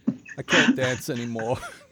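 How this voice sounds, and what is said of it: Flat, lifeless imitation of another's voice. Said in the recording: “what if Christopher Walken lost the will to live?”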